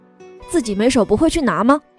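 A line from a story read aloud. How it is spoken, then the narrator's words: Sudden loud voice. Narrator (Chinese): 男孩突然大声说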